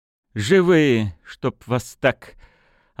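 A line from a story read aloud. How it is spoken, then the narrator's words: Relieved exhale. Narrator (Russian): облегченно выдохнула Светлана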